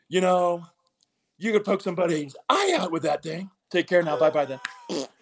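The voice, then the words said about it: Imitates another person's voice. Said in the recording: “I started doing a lot of Jim Carrey's”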